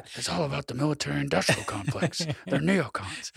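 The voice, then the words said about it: Imitates another person's voice. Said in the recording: “That's my Mark Levin impression.”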